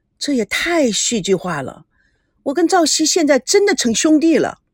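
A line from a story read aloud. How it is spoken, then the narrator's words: Emotional exclamation. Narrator (Chinese): 赵维康感叹道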